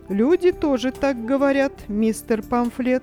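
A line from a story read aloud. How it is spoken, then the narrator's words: Laughing remark. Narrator (Russian): смеясь, заметил Питер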